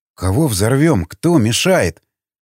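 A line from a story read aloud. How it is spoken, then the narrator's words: Puzzled question. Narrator (Russian): недоумевающим тоном спросил Васнецов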